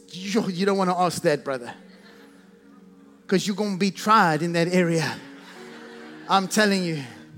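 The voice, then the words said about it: Put-on Southern US accent. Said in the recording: “That's as good as my southern accent can be right there. We've got like 5 seconds of it.”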